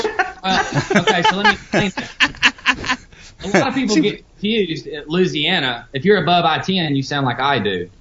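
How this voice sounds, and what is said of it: Southern Louisiana accent. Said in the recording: “I think it's odd a southern accent coming out of”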